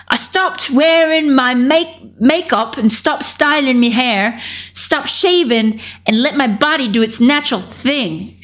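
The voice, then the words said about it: American's imitation Cockney accent. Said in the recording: “I'm doing like a what an American thinks a Cockney accent sounds like”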